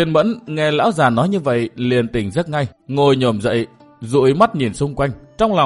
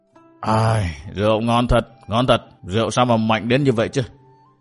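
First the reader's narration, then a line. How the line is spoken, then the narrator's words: Old man yawning, muttering. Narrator (Vietnamese): lão già ngáp mấy tiếng, vươn vai ra, mồm thì lẩm bẩm nói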